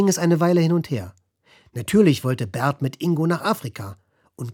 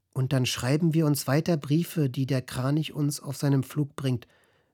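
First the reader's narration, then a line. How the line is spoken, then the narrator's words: Soft speech. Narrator (German): sagte Ingo leise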